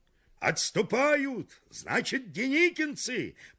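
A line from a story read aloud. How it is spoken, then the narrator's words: Attempted shout. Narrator (Russian): пытался крикнуть Киров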